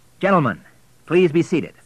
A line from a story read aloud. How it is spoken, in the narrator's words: said William, hoping his voice sounded firm